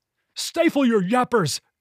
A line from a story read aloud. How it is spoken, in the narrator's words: Greg shrieked